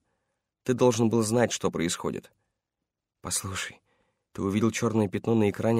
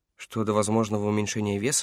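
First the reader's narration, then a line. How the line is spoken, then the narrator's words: Calm reply. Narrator (Russian): спокойно ответил Эш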